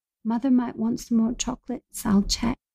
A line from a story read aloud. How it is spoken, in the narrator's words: She'd blushed, only turning back to half whisper